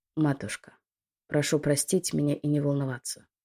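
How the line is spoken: Quiet. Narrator (Russian): тихо произнес он

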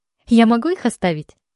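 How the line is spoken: Happy chirping. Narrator (Russian): Радостно щебечу

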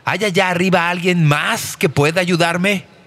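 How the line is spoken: Terrified man shouting. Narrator (Spanish): el aterrado hombre gritó

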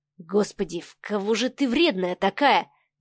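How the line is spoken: Mutter. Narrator (Russian): пробормотал Савва

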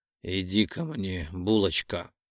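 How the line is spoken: Hoarse growl. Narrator (Russian): Моментально пересохшее горло превращает мой охрипший голос в рычание

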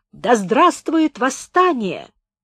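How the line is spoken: Shrill scream. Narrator (Russian): Она пронзительно закричала

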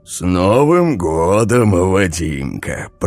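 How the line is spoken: Deep bass voice. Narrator (Russian): пробасил он

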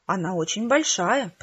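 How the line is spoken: Whisper. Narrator (Russian): прошептала я

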